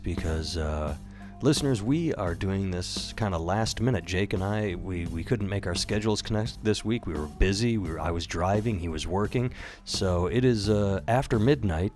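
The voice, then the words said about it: Quiet, subdued voice. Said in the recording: “I'm talking in a subdued voice ... We got to keep things quiet.”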